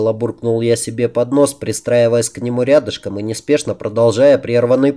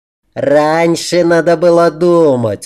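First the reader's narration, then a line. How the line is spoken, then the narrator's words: Loud laughing. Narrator (Russian): уже в полный голос расхохотался император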